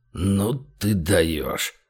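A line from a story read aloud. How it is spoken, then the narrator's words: Breathed out. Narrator (Russian): выдохнул Большой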